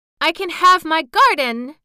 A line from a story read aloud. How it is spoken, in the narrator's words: cried Mary